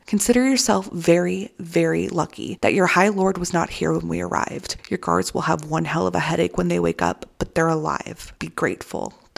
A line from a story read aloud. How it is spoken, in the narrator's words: the voice said